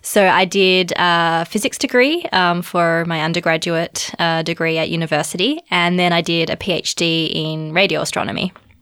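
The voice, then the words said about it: Australian accent. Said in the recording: “as you may be able to tell by my accent, I'm originally from Australia”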